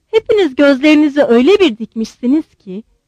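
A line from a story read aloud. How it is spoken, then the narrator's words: Plain. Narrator (Turkish): dedi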